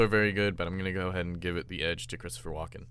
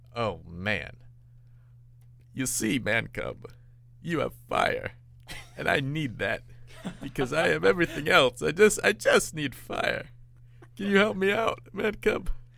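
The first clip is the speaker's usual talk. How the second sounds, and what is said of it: Imitates another person's voice. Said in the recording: “your best Christopher Walken impression”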